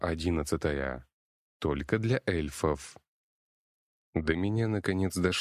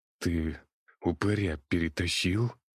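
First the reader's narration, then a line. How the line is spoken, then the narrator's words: Rasped. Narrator (Russian): прохрипел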